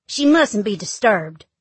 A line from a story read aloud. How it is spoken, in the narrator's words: snaps the nurse